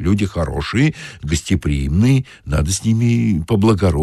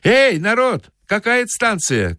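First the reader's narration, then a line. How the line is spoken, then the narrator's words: Shout. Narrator (Russian): крикнул он солдатам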